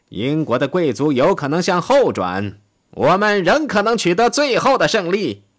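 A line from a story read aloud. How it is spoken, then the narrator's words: Loud, deluded. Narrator (Chinese): 他痴人说梦，大声地说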